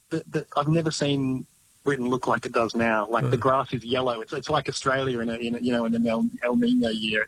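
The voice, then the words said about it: Retained non-British accent. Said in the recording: “I've been living here 18 years, and I've, you know, somehow managed to hold on to my accent”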